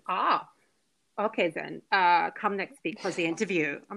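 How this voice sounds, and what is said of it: Imitated German accent. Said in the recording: “she had some like German accent.”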